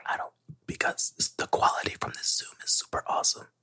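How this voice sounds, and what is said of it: Whispering. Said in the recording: “Why the fuck are we whispering?... It is some soothing ass shit.”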